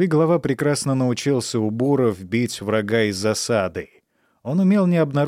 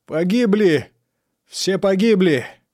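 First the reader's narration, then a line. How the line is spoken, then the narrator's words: Shouting. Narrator (Russian): кричал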